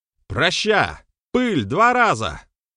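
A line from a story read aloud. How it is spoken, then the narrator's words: Barked. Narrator (Russian): рявкнул Берослав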